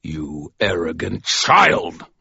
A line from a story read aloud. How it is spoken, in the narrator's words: Michael snarled